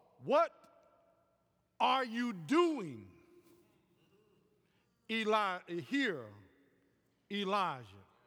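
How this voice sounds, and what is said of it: Stress placed on the word what. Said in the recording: “the accent is on what”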